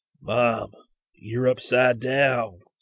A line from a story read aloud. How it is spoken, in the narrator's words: the ex-Marine that his first almost inaudible gasping words were